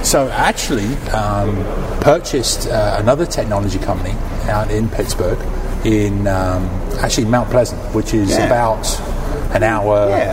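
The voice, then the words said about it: Mellowed London accent, slightly American, Australian. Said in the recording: “originally from the UK, not Australia ... Originally from London ... my accent's kind of like mellowed down ... it's kind of got that mix of like American, English. Sounds slightly Australian”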